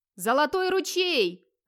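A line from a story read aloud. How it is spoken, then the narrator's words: Shouting at full voice. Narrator (Russian): во весь голос орал Вигмар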